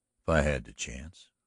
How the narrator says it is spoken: returned Galloway as coolly

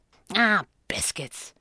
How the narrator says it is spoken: she muttered as she stomped

